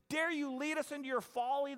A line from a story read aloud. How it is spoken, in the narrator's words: the cave dwellers shouted